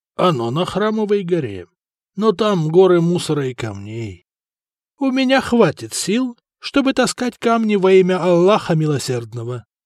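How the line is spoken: Calm. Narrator (Russian): спокойно ответил Умар

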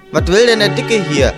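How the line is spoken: Student calling from behind. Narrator (German): rief einer der Schüler von hinten

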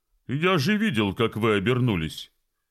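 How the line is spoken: Angry exclamation. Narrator (Russian): сердито воскликнул Фестус

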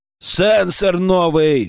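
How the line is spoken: Bellowed. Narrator (Russian): гаркнул я

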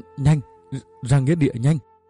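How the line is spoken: Breathless stammering. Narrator (Vietnamese): Anh Trài lúc này thở không ra hơi, chỉ lắp bắp nói

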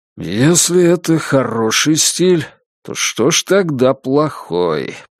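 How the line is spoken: Through gritted teeth. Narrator (Russian): процедил Бабкин

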